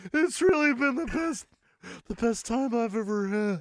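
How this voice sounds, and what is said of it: Breathless, out-of-breath speech. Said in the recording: “You seem out of breath.”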